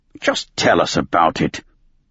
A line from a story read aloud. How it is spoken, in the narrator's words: One Eye grumbled